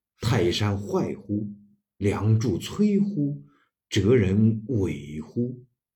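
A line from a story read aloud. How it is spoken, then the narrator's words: Dying old man sighing. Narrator (Chinese): 孔子暮年将死，自叹曰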